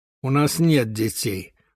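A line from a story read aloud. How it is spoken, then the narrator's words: Gloomy. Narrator (Russian): мрачно сказала Алла Григорьевна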